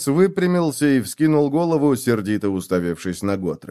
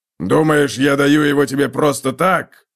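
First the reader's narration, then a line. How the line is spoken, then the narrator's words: Gruff bark. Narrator (Russian): рявкнул Готрек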